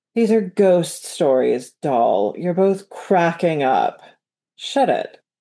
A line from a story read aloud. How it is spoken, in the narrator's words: shivered in the morning sun, and drawled